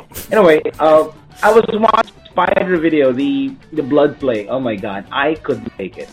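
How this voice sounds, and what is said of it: Strong Filipino accent. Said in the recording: “Filipino. ... Thus the strong Filipino accent.”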